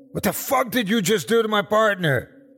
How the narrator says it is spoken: Detective Brown shouts

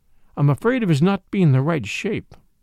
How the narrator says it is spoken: said in a choked voice

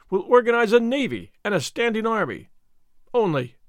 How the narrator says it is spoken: he cried, in free enthusiasm

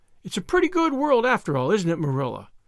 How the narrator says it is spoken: concluded Anne happily

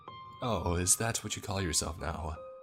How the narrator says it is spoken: replied, letting out a forced chuckle

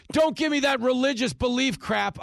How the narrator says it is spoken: yelled

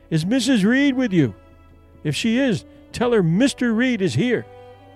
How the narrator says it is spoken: they called out

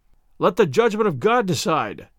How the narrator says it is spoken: cried the knights who were present

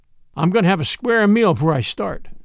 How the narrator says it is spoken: Smoke said

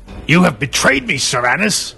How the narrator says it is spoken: she growled

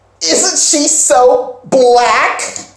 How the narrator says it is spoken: One girl, who is white, says real loudly

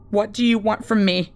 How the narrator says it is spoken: I asked anxiously

